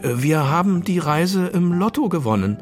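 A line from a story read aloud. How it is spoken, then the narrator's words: Stammering. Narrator (German): stammelte Titus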